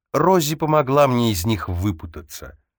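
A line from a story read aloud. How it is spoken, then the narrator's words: Hesitant, then spiteful smirk. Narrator (Russian): заколебалась, потом злобно усмехнулась и сказала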